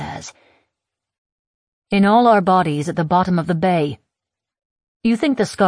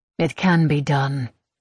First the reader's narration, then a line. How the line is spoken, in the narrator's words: she says flatly